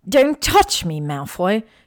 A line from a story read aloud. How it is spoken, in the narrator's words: She spat angrily